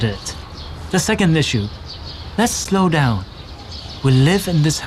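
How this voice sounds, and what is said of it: Usual voice. Nothing is said of it.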